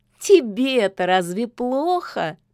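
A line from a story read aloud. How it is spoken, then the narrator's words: Ringing laughter. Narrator (Russian): заливисто смеялась Яга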